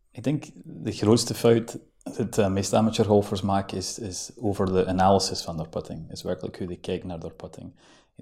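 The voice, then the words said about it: Scottish accent speaking Dutch. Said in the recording (Dutch): “Je praat Nederlands met een heel mooi accent, want je bent geboren in Schotland.”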